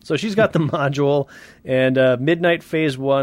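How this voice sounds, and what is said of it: Usual voice. Nothing is said of it.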